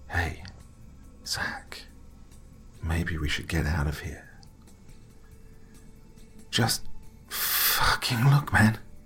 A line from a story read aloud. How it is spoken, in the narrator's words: whispered back